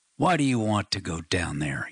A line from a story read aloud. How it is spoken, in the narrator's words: he snarled